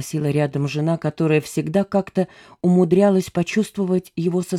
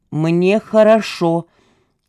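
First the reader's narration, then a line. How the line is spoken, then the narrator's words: Loud. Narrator (Russian): громко сказал Тимофей Ильич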